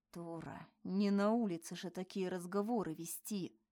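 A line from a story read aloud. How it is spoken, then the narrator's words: Quiet but menacing. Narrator (Russian): Ответил он хоть и тихо, но по-прежнему грозно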